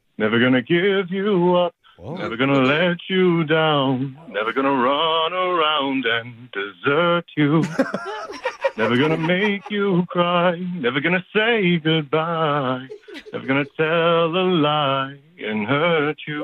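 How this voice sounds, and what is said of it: Sung imitation of another singer. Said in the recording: “Rick Astley impersonation”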